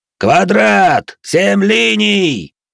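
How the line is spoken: Commander roaring. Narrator (Russian): проревел командор

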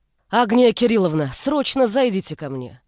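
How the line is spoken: Barked. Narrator (Russian): Рявкнула она

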